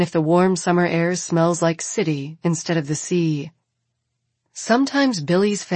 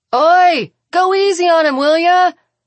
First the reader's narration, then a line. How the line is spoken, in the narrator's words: Arsinoe shouts